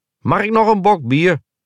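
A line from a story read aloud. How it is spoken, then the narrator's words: Calling out. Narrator (Dutch): riep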